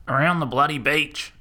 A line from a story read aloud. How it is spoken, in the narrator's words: Old Man Shanky yelled in exasperation